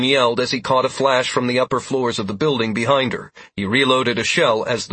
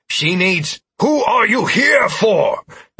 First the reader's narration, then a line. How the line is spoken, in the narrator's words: Nicodemus roared